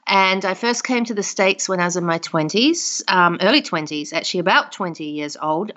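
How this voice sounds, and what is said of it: New Zealand accent. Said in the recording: “I was born in New Zealand, so of course that's the first question people ask me is your accent.”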